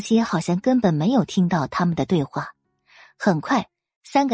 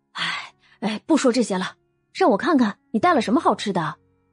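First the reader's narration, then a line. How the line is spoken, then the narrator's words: Sighing, hasty. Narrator (Chinese): 张雪梅叹了口气，赶忙岔开话题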